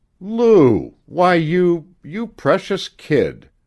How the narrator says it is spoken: Jim stammered

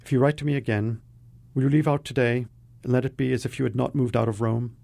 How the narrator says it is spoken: she said quickly, as if the words were red-hot coals over which she must pick her way

